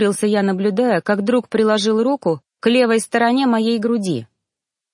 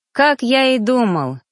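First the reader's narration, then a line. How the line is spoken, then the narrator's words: Happy sigh. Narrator (Russian): счастливо вздохнул он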